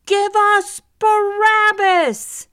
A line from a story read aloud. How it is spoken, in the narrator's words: the crowd shouted